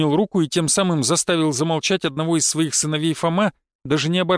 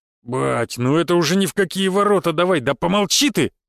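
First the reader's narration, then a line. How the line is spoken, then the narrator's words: Barked. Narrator (Russian): рявкнул Фома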